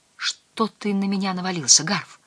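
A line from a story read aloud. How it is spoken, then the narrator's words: Whisper. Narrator (Russian): шепнул Дэн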